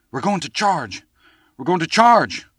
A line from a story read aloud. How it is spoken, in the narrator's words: cried the youth's friend, hastening with his news